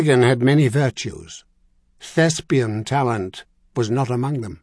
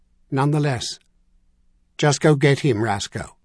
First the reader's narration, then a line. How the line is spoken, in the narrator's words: the colonel said in that same flat voice